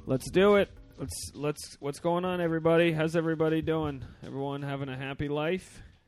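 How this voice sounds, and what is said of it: Slightly out of breath. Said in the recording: “I just climbed up 3 sets of stairs, so I'm a little out of breath.”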